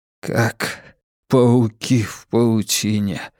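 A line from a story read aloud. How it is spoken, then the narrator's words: Mutter. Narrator (Russian): бормотал он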